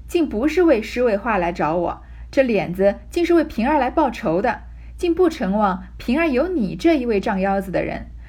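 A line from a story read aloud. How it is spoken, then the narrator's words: Hasty, laughing. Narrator (Chinese): 凤姐儿忙笑道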